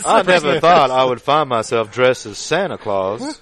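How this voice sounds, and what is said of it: Kevin Spacey impression. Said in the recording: “doing a Kevin Spacey impression ... What's that, Kev? ... Mr. Spacey?”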